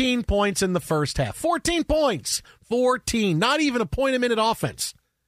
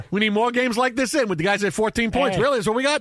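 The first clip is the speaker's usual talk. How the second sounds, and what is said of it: Put-on Staten Island accent. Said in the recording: “Now I'm back in my Staten Island accent.”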